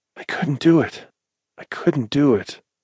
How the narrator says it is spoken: he whimpered and breathlessly repeated

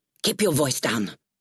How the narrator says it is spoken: snapped

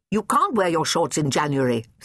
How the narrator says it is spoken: says Edwin crossly

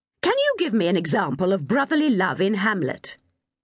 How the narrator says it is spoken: Miss Montgomery snapped impatiently

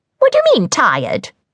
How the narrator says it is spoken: said the hag crossly

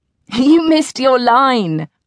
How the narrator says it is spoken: I giggled

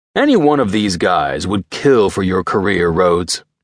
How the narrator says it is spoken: he said

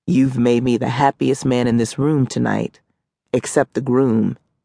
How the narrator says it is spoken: said

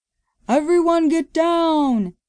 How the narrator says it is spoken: yelled a man

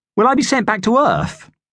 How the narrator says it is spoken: asked Susan happily

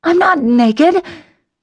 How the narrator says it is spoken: I panted

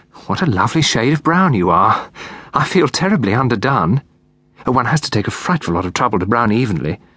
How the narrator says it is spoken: sighed Miss Lyle

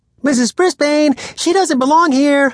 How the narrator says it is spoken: squeaked out loud

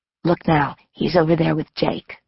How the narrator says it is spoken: leaned toward me and whispered

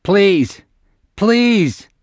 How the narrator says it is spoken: Gizbo screamed, biting his tongue by mistake

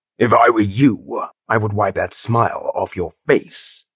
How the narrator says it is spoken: Phillips growled

